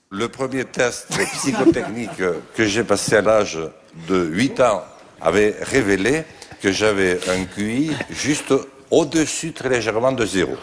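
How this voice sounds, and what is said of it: Strong Bigourdan southwestern French accent. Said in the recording (French): “son bel accent bigourdant”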